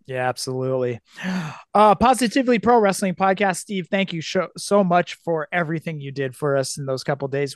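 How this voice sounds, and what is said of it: Raspy voice. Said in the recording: “my raspy voice”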